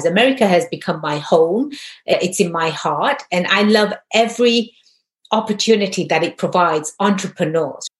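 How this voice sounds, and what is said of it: English accent. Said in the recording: “Obviously, from my accent, I wasn't born and raised here. I was born and raised in jolly old England.”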